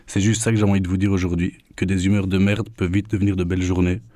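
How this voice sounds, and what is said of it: Belgian French accent. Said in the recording (French): “avec mon accent ... Trouvez un Belge à qui parler”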